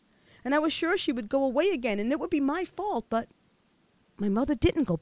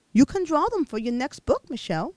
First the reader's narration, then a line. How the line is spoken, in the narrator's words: she said